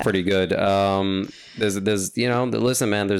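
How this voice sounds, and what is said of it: Usual voice. Nothing is said of it.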